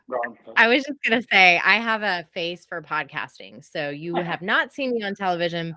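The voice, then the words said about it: Professional radio voice. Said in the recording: “you do have a very like professional radio voice.”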